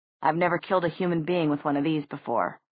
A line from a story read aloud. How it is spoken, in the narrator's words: said Jace